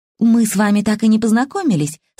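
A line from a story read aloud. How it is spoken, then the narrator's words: Cheerful. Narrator (Russian): сказала она весело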